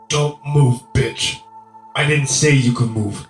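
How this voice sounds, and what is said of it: Oily, menacing male character voice. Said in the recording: “His voice has taken on an oily quality”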